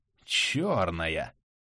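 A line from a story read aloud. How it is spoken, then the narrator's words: Spellbound drawl. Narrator (Russian): Завороженно протянул усач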